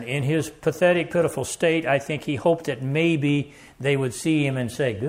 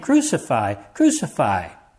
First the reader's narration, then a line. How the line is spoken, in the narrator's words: the chief priests and officers cried out, saying